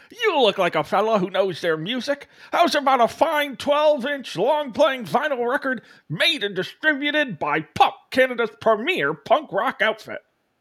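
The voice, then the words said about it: Loud salesman voice, lisping retainer. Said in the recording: “It's like Paul Giamatti with a retainer ... stop yelling at me”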